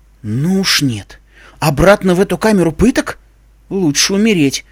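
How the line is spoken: Exclaiming. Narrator (Russian): воскликнула Искорка

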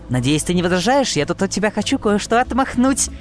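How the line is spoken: Laughing pony. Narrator (Russian): Засмеялась розовая пони

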